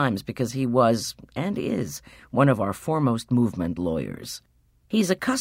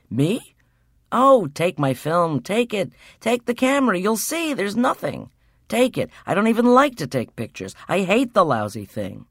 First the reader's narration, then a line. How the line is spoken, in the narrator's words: he cried